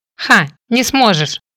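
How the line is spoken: Snorting. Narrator (Russian): фыркнула

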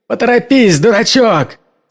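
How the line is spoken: Yelling. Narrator (Russian): заорал Кэм

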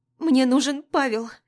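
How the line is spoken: Sobbing, pleading. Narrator (Russian): Всхлипываю и умоляюще

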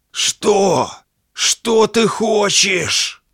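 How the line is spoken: Strained hoarse rasp. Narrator (Russian): С трудом прохрипел человек в сером костюме

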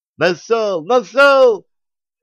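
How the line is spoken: Pleased laughter. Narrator (Russian): Довольно расхохотался

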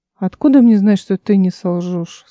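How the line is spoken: Tired. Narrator (Russian): сказал он устало

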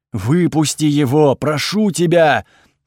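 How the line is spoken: Piercing scream, night god. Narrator (Russian): пронзительно закричал бог ночи

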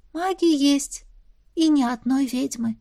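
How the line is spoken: Sighing. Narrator (Russian): вздохнула Эва

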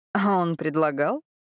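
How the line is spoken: Mocking question. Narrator (Russian): Насмешливо переспросила Адольфо

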